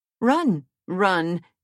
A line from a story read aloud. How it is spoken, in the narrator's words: exclaimed the queen